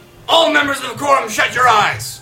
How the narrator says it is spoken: Brandis suddenly breaks the mood and yells

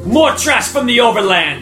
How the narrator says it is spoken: shouts

